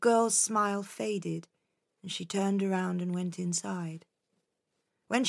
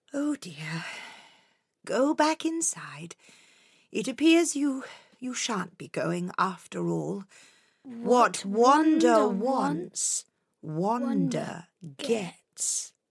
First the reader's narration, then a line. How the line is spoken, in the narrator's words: With a deep sigh, the old woman said